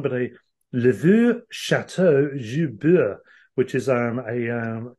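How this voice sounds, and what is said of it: Put-on French accent. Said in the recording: “your accent. It's it's like being in a room with a Frenchman.”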